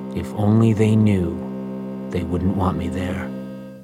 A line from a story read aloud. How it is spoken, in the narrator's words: he grumbled